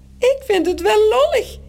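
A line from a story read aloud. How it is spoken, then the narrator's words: Squeaking in another's voice. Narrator (Dutch): piept Morrel met de stem van Toos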